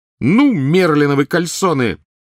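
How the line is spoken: Sudden powerful shriek. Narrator (Russian): Вдруг завизжала она с такой силой

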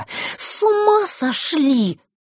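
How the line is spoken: Hissed. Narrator (Russian): прошипела она

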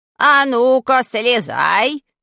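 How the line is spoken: Menacing old man's voice. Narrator (Russian): грозным голосом сказал дедушка

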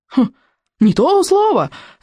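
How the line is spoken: Crowd yelling. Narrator (Russian): заорали остальные берсерки на мостах

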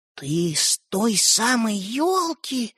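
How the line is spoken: Entranced whisper. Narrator (Russian): завороженно прошептал Светлик

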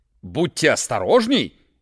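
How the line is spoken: Shouting. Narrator (Russian): крикнул Джакомон своим слугам

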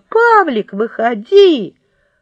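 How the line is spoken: Shout. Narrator (Russian): И она закричала

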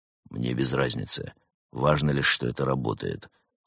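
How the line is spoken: Cold. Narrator (Russian): холодно ответил брат Немрод

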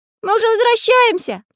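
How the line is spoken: Shouted. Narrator (Russian): крикнул Карандаш

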